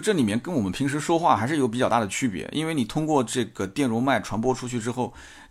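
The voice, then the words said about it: Heavy Nanjing accent in Mandarin. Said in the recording (Chinese): “我普通话讲的又不是很好，到今天还有很重的南京口音”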